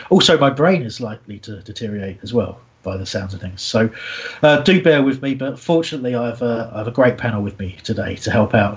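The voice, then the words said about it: Sick, strained voice. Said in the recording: “I'm extremely unwell today and my voice is likely to deteriorate”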